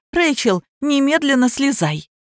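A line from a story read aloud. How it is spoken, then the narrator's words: Repeated, yelled. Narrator (Russian): повторила я и заорала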